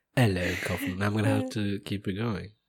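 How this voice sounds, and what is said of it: Put-on British accent. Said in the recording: “Should have not gone with a British accent.”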